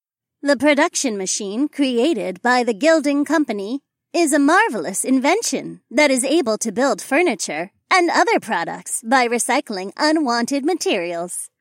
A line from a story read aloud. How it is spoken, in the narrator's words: the robotic woman said in a chipper voice that reminded me of a commercial